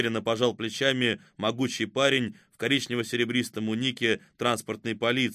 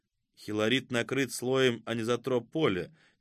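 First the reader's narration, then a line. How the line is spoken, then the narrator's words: Quiet. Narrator (Russian): негромко проговорил Игнат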